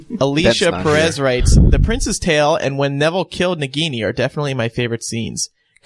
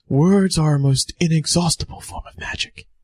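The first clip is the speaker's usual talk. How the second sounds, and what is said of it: Poor Dumbledore impression. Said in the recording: “I apologize for my poor Dumbledore impression.”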